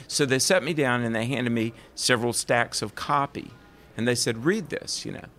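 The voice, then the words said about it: Southern American accent. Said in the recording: “Do you hear that southern accent? ... I'm from the South.”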